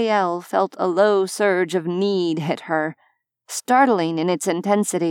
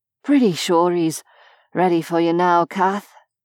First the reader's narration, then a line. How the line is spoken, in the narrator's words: he said breathlessly